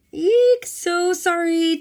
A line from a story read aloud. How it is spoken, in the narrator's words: Tiffany shouted with a grin that didn't look very sorry